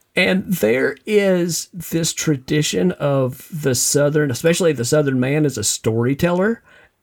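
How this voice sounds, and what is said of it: Southern American accent. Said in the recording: “as you can tell from the accent, uniquely Southern”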